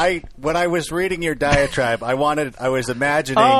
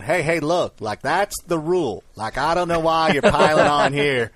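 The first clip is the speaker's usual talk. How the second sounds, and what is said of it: Put-on Southern accent. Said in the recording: “a southern accent”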